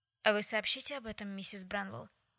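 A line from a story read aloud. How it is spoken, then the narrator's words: Plain. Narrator (Russian): наконец спросила она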